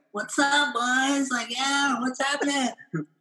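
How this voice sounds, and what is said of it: Imitates another person's voice. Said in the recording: “that's exactly what he sounded like too ... that was a great impression”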